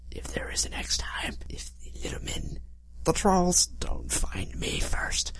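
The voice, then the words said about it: Whispering. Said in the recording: “Why am I whispering?”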